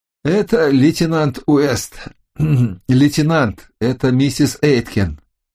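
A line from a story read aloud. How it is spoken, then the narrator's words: Hoarse voice. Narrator (Russian): Охрипшим голосом я сказал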